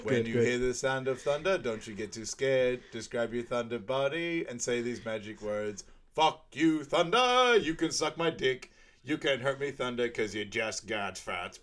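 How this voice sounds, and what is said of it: Sung lines with Boston accent. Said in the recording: “I even chucked in a bit of a Boston accent for you ... Right at the end. That was 100%.”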